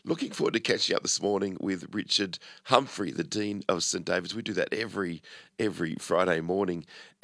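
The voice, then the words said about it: Rough, congested voice. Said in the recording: “Apologies for my voice this morning... a bit of a cold at the moment”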